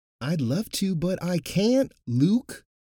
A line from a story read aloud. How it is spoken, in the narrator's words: the High Priest shouted in frustration